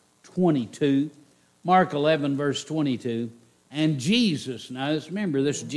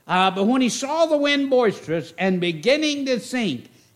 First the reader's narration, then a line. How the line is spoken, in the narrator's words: he cried, saying